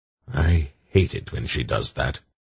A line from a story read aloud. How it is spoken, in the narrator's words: Belgarath muttered